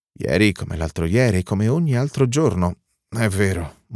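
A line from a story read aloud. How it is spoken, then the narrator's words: Murmur. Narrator (Italian): mormora lui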